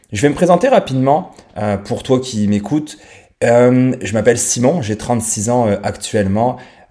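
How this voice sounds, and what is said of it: Slight accent from France. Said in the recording (French): “j'ai un petit accent français parce que je viens de France”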